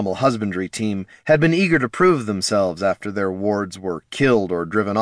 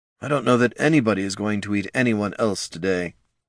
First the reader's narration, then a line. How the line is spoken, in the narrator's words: Tyron muttered